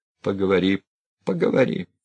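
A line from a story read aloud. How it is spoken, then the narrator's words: Calm. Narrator (Russian): спокойно молвил Сергей Николаевич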